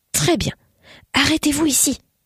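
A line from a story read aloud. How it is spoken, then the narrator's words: Breathed whisper. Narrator (French): souffla Hieronymus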